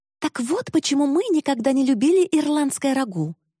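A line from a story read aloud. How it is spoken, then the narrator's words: Indignant exclamation. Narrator (Russian): с негодованием воскликнула я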